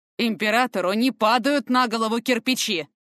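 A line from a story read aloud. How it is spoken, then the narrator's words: Barking. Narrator (Russian): рявкнул Фортем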